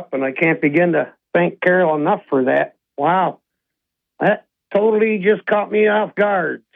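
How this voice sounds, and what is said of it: Choked up, emotional voice. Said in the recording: “I'm a little choked up”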